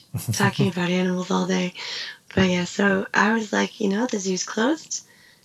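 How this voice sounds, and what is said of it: Worn-out, fading voice. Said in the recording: “my voice is going”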